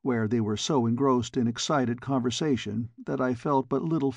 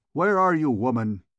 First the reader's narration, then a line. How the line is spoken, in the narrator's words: he cried